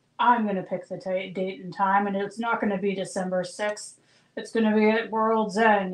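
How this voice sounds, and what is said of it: Imitates another person's voice. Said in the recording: “That was my Christian. ... That was a great, great impression.”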